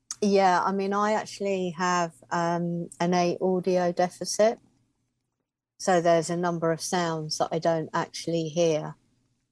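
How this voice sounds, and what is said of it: Speaks with a distinctive accent. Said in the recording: “I love your speaking voice. I love your accent.”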